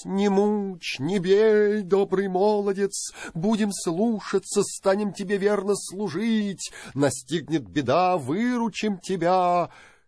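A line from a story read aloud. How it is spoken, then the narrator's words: Horses pleading. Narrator (Russian): Пали кони на коленки, взмолились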